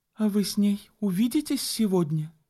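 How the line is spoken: Uncertain, smiling. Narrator (Russian): неуверенно улыбнулась Энн

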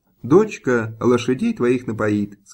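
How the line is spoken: Plain. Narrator (Russian): сказала хозяйка

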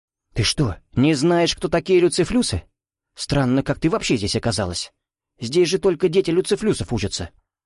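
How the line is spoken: Girl's surprised whisper. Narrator (Russian): Удивленно прошептала кто-то из девушек

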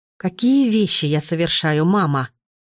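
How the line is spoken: Through gritted teeth. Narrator (Russian): сквозь зубы спросила я

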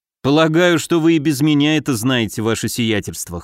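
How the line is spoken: Snort. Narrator (Russian): хмыкнул

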